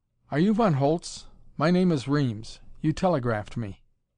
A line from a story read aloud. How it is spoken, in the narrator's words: said irritably